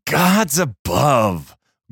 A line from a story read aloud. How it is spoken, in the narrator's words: growled Pavel